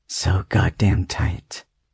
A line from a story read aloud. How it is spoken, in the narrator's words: he mutters